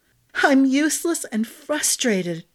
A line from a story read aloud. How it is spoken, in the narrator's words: Glinna cried